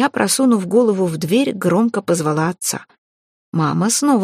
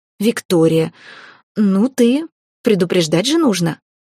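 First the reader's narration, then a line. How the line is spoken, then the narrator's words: Strained, forced out. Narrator (Russian): выдавила она наконец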